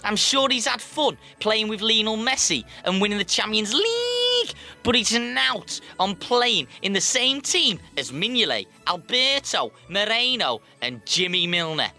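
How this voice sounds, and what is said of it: Put-on Liverpool Scouse accent. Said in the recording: “to all football friends from Liverpool, I'm really sorry about that accent”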